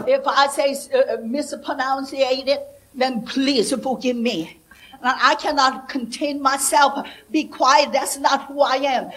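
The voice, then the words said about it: Non-native English accent. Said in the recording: “English is my second language, so I have a little accent, more than a little accent.”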